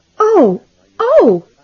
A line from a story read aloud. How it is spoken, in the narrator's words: Della cried